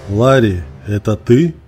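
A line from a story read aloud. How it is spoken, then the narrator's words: Cold question. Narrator (Russian): холодно спросил Джерри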